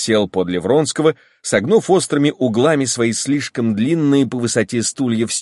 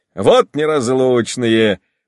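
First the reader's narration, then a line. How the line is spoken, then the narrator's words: Added. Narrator (Russian): прибавил Яшвин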